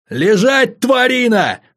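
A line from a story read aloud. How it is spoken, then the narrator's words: Yelled. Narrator (Russian): заорал я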